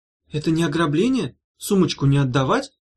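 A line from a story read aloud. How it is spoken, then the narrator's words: Young lady's timid question. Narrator (Russian): робко спросила барышня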